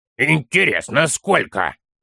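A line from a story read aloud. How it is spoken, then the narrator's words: Child grumbling. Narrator (Russian): проворчал малыш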